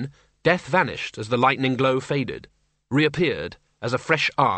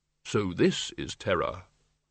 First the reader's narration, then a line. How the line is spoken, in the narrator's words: the innermost tiny voice which said quite calmly